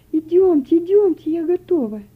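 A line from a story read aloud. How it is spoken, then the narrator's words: Exclaimed. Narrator (Russian): воскликнула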